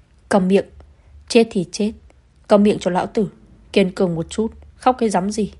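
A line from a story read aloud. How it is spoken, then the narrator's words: Irritated shout. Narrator (Vietnamese): Yến Vương gia phiền lòng quát lên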